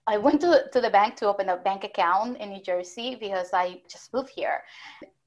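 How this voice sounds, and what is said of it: Noticeable foreign accent. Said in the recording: “she hears my accent ... I sense an accent”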